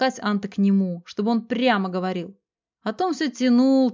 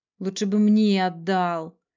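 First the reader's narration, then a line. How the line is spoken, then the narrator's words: Regretful grumble. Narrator (Russian): с сожалением пробурчал Даниил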